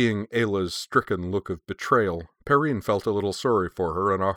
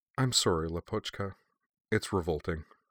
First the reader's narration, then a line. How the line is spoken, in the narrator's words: Sonia said softly